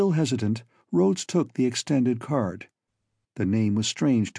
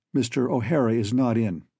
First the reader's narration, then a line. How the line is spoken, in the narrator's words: he said